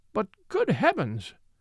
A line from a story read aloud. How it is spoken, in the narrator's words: cried the Duchess, almost in hysterics